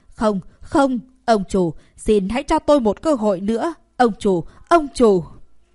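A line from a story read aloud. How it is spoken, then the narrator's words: Young man wailing miserably. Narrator (Vietnamese): Người thanh niên kêu gào thảm thiết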